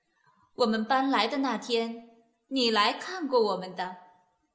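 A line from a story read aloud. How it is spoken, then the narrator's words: Smiling. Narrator (Chinese): 克里赫太太也笑着说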